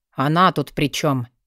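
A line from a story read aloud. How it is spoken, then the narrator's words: Grumbling mutter. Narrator (Russian): буркнул Вёлвинд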